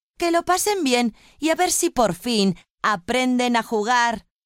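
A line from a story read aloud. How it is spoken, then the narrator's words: Exclaiming. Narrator (Spanish): exclamó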